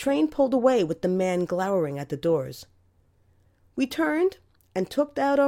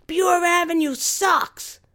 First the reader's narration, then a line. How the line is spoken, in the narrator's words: we yelled loud enough for the man to hear